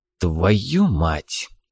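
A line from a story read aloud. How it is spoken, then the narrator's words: Quiet, flat. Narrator (Russian): тихо, без выражения, проговорил Лизунов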